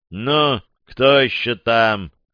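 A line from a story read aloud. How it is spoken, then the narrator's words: Deliberately displeased, over radio. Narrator (Russian): выдал в эфир нарочито недовольным голосом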